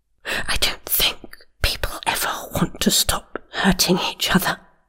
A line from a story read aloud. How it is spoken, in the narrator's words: Milra whispered